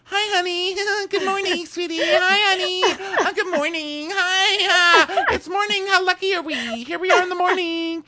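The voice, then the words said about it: Chirpy, sweet impression of cast member. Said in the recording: “your impression ... He's like the cutest gay bird ever ... Chirp, chirp, chirp, chirp”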